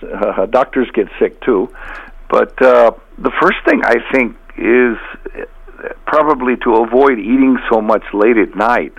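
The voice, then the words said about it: Slightly hoarse voice. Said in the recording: “I have a cold, so my voice is a little bit hoarse.”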